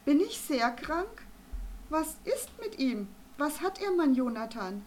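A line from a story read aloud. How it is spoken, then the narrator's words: Excited calling out. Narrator (German): rief Arabella Vogel aufgeregt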